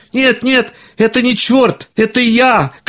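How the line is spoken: Shouting. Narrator (Russian): кричал Пономарь

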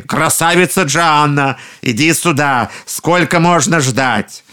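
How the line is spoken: Ogres shouting. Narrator (Russian): людоеды опять закричали

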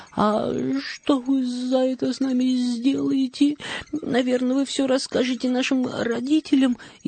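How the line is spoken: Frightened girl asking. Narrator (Russian): испуганно спросила Мари

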